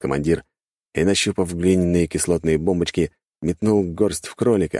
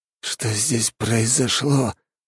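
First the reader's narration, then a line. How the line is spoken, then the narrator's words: Disbelieving mutter. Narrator (Russian): пробормотал он, не веря своим глазам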